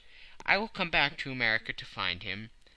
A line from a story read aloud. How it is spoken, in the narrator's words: said Phileas Fogg calmly